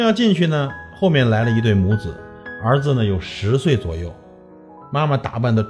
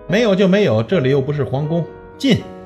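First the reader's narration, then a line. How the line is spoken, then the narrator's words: Loud woman. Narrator (Chinese): 那个女人大声地说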